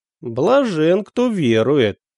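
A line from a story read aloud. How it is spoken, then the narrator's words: Grumbling. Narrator (Russian): проворчал отец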